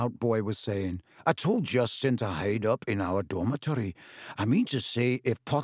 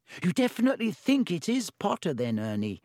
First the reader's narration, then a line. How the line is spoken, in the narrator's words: said a girl anxiously